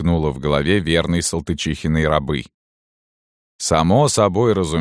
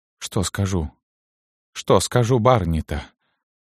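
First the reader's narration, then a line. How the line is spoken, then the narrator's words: Dazed whisper. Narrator (Russian): бессмысленно шептала она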